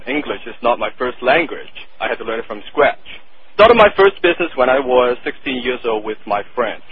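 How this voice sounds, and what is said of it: Thick non-native English accent. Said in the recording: “my thick accent”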